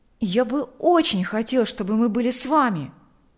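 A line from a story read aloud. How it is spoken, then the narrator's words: Exclaimed. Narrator (Russian): воскликнул Миша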